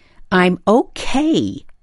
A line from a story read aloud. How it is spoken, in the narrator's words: the farmer's daughter yells impatiently in the direction of the closed door